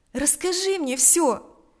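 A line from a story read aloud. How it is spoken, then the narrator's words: Compassionate exclamation. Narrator (Russian): воскликнула она в порыве сострадания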